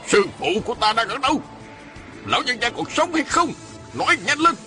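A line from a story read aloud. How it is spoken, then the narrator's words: Shouted question. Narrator (Vietnamese): Y quát hỏi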